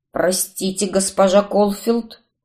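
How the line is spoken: Muttered. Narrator (Russian): Пробормотал он

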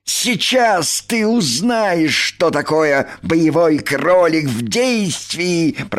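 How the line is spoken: Growling. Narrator (Russian): прорычал он

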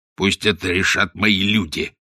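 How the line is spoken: Growling. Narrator (Russian): зарычал Каузак

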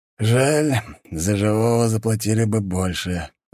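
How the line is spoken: Sighing. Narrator (Russian): вздохнул Доберин

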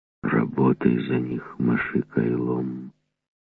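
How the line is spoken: Whispering. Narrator (Russian): шептал он

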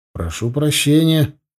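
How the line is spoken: Muttered. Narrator (Russian): пробормотал я

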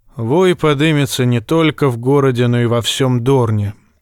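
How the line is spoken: Tired remark. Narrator (Russian): устало бросил Доран Мартелл

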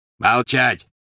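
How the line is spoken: Barked. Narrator (Russian): рявкнул Грюм

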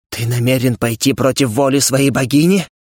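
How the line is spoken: Strained hesitant. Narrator (Russian): После недолгого молчания я выдавил из себя

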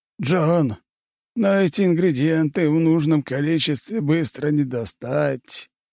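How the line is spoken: Sigh. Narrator (Russian): вздохнул он

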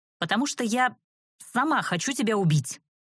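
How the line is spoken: Angrily finished. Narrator (Russian): Злобно закончила я

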